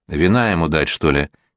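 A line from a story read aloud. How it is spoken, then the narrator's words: Quiet advice. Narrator (Russian): тихо посоветовал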